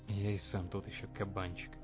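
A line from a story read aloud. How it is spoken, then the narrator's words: Muttered. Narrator (Russian): буркнул Шептун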